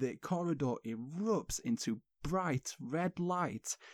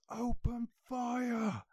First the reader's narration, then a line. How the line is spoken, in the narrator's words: With uncertainty and shock in their faces, one rebel yells